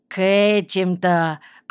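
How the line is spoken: Drawling. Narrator (Russian): протянул он

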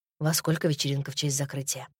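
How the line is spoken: Mutter. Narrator (Russian): пробормотал он

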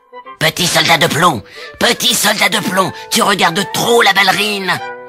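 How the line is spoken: Devil shouting. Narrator (French): cria le diable

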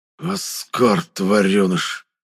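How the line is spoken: Hissed under breath. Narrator (Russian): прошипел себе под нос Зертан

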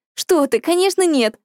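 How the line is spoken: Exclaimed. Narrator (Russian): воскликнула Василиса

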